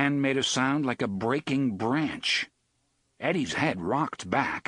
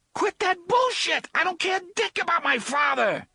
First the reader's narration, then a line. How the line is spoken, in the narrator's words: Eddie shouted hysterically